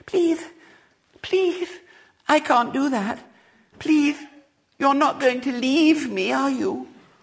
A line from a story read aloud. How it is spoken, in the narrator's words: a small voice said plaintively